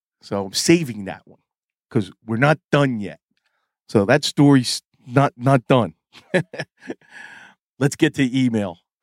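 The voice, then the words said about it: Strained voice, nearly losing it. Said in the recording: “If you hear a little tinge in my voice ... I'm on the verge of losing my voice because that was from yelling at a vendor”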